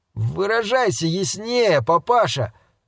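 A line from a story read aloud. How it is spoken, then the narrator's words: Drawl, shaken confidence. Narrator (Russian): протянул Рик Мейден, утративший значительную долю самоуверенности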